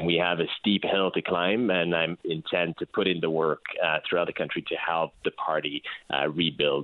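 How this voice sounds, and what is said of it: Quebec French accent in English. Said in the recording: “as you can probably hear, you know, with my accent, I'm from Quebec”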